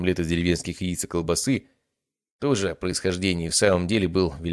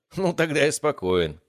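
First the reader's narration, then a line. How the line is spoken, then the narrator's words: Laughing. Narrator (Russian): рассмеялся я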